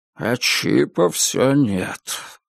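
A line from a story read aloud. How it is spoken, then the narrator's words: Sigh. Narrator (Russian): вздохнул Альфред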